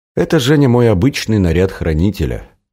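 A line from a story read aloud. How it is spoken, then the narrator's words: Calm. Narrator (Russian): спокойно пояснил тот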